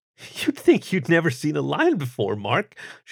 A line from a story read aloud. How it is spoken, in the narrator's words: she chuckled